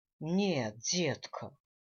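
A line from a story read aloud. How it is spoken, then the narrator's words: Sighing. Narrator (Russian): вздохнул папаша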